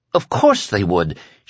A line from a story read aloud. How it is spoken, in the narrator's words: she said impatiently and a trifle wildly